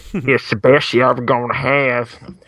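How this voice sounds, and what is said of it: Imitates another person's voice. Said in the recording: “That's really offensive. ... Imitating my grandfather.”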